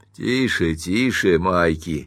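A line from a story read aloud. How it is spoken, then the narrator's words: Grim, smiling. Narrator (Russian): мрачно улыбнулся мистер Керриген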